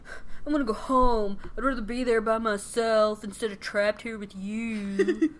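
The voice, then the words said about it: Pouty imitated character voice. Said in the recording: “he's all pouty ... Good impression.”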